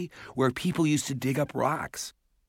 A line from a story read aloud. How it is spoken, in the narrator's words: Mallory said impatiently